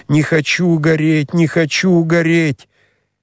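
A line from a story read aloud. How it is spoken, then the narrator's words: Increasingly frantic screaming. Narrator (Russian): она кричала все громче, все неистовее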